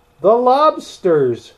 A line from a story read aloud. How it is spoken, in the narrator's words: shouted the griffin